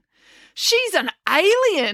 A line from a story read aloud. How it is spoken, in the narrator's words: exclaimed April